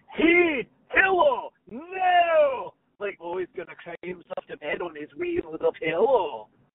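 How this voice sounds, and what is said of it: Put-on Scottish accent. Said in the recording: “when I learned to do a Scottish accent, it was from Mike Myers in So I Married an Axe Murderer”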